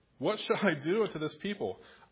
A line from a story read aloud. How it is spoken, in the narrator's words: Moses cried to the Lord, saying